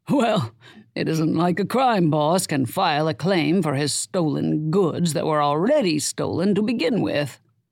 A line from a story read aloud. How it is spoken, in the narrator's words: Herman said, chuckling